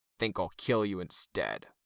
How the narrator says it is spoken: Hookwolf growled

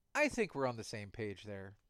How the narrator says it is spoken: Tattletale said

